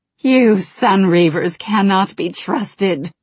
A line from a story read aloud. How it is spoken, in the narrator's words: growled Verisa